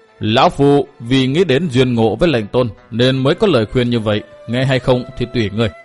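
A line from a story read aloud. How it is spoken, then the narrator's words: Old man, stern voice. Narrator (Vietnamese): Lão nhân nghiêm giọng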